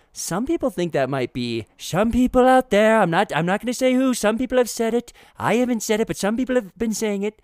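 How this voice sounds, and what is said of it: Imitates another person's voice. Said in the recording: “my Trump impersonation. It was deteriorating.”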